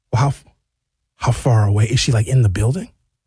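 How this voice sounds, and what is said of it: Whispering. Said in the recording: “Why am I whispering? Why are you whispering?”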